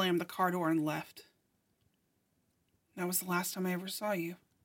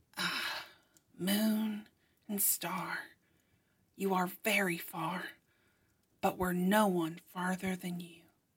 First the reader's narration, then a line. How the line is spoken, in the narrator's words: you whispered to yourself